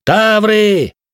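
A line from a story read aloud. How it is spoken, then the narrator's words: Warning shout. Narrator (Russian): кричал принц, словно пытаясь предупредить нас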